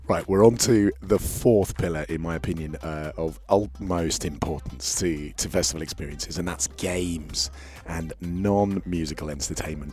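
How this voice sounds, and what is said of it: Worn-out, strained voice. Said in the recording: “my voice is a little worse for wear. So turn it up a little bit so you can hear me better.”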